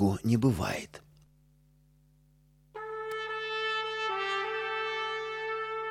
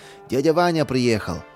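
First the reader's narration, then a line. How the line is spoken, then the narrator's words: Joyful. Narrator (Russian): обрадовался он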